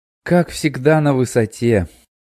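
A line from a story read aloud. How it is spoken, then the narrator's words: Satisfied sigh. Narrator (Russian): Закончил он и удовлетворенно вздохнул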